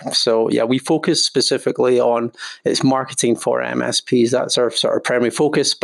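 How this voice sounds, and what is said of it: Strong Scottish accent. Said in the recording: “his ripping Scottish accent”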